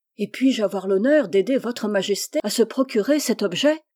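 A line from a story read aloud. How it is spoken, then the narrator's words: Eager exclamation. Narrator (French): s'écria Persée avec empressement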